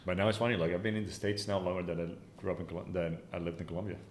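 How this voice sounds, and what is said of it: Foreign-accented English. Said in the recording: “Do people hear your accent and they say, like, where are you from?”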